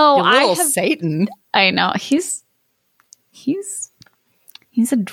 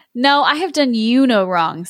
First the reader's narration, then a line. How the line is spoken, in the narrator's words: said Twinkle